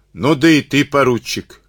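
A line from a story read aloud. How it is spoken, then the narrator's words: Shouting. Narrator (Russian): крикнул он Карабанову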